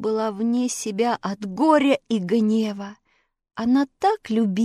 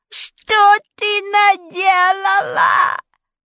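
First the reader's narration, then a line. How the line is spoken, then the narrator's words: Shrieking sorceress. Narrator (Russian): завизжала волшебница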